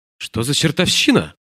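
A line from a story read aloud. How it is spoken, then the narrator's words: Exclamation. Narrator (Russian): воскликнула Джульетта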